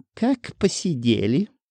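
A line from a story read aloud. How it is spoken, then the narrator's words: Snide question. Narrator (Russian): ехидно осведомилась Тина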